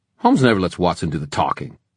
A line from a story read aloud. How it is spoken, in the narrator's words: Ty snapped